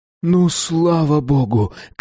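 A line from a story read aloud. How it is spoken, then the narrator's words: Shouted. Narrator (Russian): крикнул кто-то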